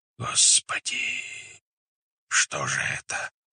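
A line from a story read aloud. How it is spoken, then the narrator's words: Several voices whispering. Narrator (Russian): зашептали сторонники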